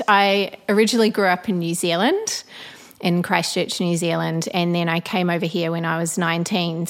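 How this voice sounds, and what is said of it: Blended New Zealand-Australian accent. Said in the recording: “you kind of have a blended accent ... I have a blended accent ... haven't lost the accent ... Sometimes you do sound Australian”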